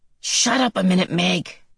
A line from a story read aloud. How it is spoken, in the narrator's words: Calvin whispered to her